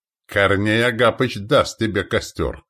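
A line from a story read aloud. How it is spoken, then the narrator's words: Snort. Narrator (Russian): хмыкнул Селиван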